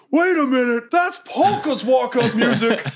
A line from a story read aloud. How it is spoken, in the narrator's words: the famous goblin promoter, Paul Heyman, yelling